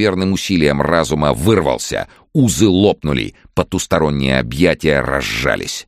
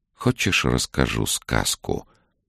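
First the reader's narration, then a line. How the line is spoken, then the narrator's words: Many-voiced luring whisper. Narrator (Russian): Разноголосый шепот манил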